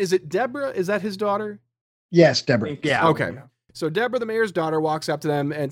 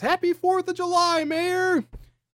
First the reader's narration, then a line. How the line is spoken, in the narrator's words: a woman off camera shouts